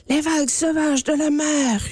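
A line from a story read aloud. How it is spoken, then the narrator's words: Roaring river. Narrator (French): rugit la rivière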